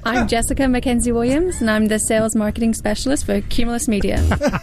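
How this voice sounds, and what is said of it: Speaks with an accent. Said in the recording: “And she has an accent.”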